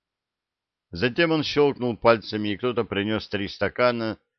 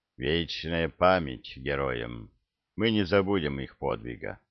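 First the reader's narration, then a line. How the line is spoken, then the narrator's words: Muffled, somber. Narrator (Russian): Орк глухо сказал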